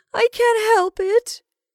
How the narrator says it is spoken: replied Rebecca, with almost a wail

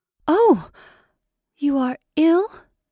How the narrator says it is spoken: she gasped

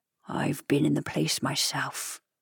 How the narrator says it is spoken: he said in a lowered voice

